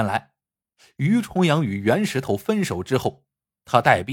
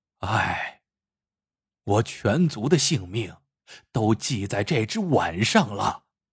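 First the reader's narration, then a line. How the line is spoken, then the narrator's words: Heavy sigh. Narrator (Chinese): 于重阳长叹一声，说道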